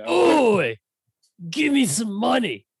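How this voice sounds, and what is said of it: Exaggerated 'oi' voice. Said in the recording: “in your oi voice, in your oiest of ois”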